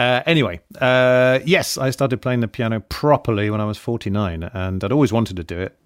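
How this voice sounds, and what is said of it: Usual voice. Nothing is said of it.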